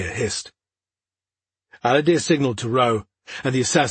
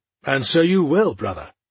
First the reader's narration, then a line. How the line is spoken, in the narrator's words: Aladir replied calmly